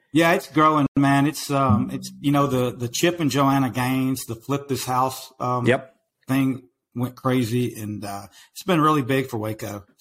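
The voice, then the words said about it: Strong Texan country accent. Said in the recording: “your accent is crazy, man. You've got a country accent. People from Texas tell me I've got an accent”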